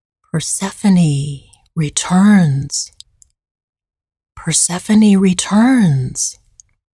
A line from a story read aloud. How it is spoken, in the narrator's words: whisper in the warm breeze